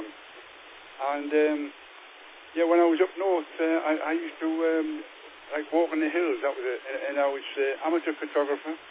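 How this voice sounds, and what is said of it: Northern English Geordie accent. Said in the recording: “you might recognise a different accent to some people over England. Yeah, I'm a northern lad, a Geordie boy.”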